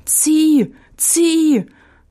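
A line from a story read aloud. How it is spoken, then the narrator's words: Fox calling out. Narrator (German): rief der Fuchs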